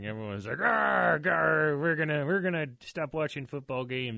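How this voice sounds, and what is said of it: Put-on pirate accent. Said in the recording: “I made a pirate accent there.”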